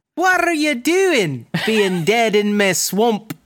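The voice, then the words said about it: Shrek character voice. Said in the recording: “I'm doing the Shrek voice.”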